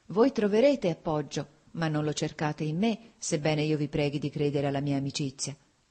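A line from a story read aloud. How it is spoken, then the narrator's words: Sighing. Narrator (Italian): ella disse con un sospiro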